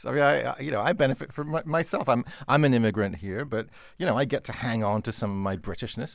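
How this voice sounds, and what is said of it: British speaker with near-American accent. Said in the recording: “your accent, it's almost totally American, dude”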